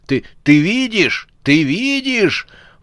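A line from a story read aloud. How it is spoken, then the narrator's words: Howled. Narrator (Russian): Взвыл он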